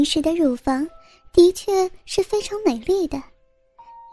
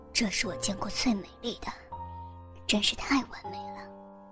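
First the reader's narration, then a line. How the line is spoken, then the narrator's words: Hushed exclamation. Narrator (Chinese): 林诗， 他低声呼道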